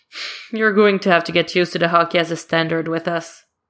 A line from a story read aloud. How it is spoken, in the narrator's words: he laughs and says